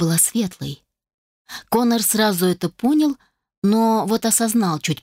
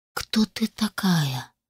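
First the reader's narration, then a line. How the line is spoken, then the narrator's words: Barely audible question. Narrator (Russian): едва слышно спросил Коннор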